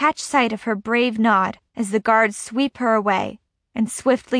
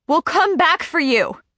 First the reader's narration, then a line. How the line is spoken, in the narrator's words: he yells